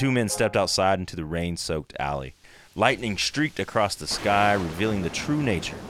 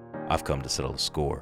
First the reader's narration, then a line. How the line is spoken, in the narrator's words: Jesus replied calmly